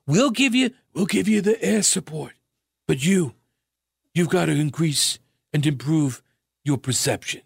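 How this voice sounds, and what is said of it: Put-on Chicago mobster accent. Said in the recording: “that was kind of a Chicago accent ... You'd think I'd be able to slip into, I can't. It's the New York accent now. It's like it takes me a minute to find it.”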